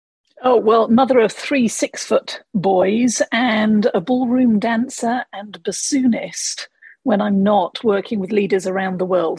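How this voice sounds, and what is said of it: English accent. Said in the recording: “I note the accent ... the accent I bring with me from the UK. I grew up in England”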